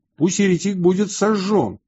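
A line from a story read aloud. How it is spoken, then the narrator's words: Crowd shouting. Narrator (Russian): Народ кричал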